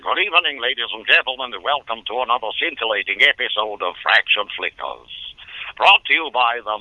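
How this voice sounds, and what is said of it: Hans Conried impression. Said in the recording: “I did a very good impression of Hans Conried ... this kid does your voice”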